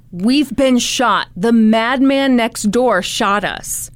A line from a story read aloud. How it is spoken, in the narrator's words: he yelled